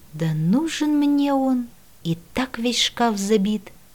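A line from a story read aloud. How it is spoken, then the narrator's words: Barely audible grumble. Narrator (Russian): чуть слышно буркнула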